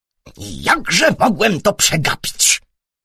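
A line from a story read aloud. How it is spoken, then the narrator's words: Angry worried inspector. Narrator (Polish): zaniepokoił się gniewnie inspektor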